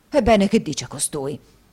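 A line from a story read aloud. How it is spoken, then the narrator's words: Flushed exclamation. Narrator (Italian): esclamò Squeers facendosi rosso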